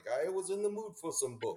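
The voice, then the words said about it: Generic European accent. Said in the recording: “my generic European accent”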